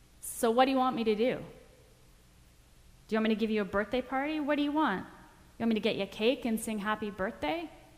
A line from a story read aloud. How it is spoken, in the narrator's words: Her friend responded in a nasty tone